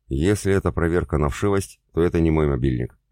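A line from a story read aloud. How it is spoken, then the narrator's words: Snorting smirk. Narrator (Russian): хмыкнул я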